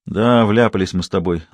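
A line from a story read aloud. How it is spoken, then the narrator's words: Sighing. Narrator (Russian): вздохнул Шорохов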